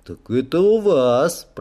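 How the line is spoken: Drawn-out drawl. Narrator (Russian): протянул я

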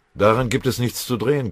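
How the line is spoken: Growled. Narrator (German): knurrte Beutelschläger

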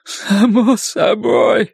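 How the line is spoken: Hoarse, then crying. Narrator (Russian): прохрипел Ллойд и заплакал

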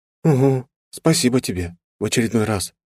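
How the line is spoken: Near whisper. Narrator (Russian): произнесла почти шепотом

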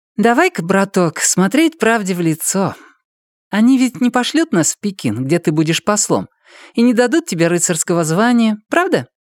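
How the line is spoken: Cheerful. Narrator (Russian): весело обратилась она ко мне

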